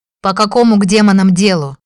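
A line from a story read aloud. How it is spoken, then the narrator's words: Barked. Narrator (Russian): рявкнул он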